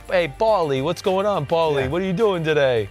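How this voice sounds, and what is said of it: Put-on North Jersey accent. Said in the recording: “I can't say his name without saying it in that accent... It's like I'm from Jersey, and that's how people would say his name... North Jersey... a little Jersey flave”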